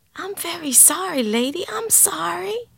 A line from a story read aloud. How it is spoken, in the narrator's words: whispered the boy